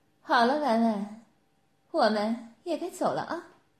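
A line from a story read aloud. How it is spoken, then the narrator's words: Smiling. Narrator (Chinese): 赤月在婉婉面前笑着说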